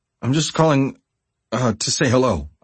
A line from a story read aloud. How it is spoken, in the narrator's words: faltered